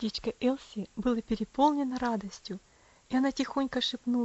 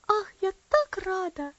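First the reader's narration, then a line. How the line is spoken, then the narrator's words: Excited little girl. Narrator (Russian): воскликнула маленькая девочка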